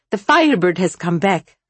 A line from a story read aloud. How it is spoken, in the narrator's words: snarled the Bagyanik